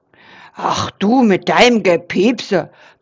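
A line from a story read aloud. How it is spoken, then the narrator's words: Grumbling, less grim. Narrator (German): brummste Eberhard, aber nicht mehr ganz so grimmig wie sonst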